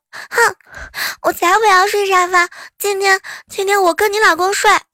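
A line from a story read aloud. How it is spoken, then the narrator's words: Crying. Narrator (Chinese): 萌萌哭着说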